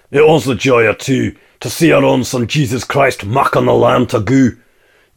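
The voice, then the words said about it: Broad Scottish accent. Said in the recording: “someone with a very broad Scottish accent singing it”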